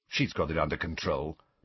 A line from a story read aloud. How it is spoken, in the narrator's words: muttered to Harry